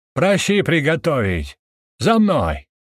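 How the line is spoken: Shouted. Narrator (Russian): выкрикнул Корн

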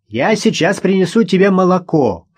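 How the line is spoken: Shouted after her. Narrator (Russian): крикнул ей вдогонку Ростовцев

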